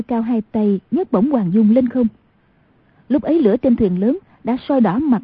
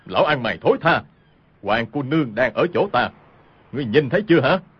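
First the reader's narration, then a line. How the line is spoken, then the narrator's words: Loud shout. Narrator (Vietnamese): cao giọng quát lên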